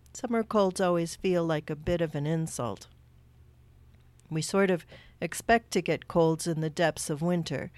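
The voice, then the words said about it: Slightly congested, sick-sounding voice. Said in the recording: “I've been fighting quite a bad summer cold. You might still hear it in my voice a little”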